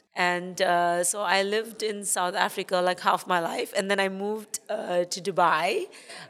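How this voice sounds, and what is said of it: International accent, slightly South African. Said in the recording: “my accent, because it's quite international ... I have a bit of a South African accent”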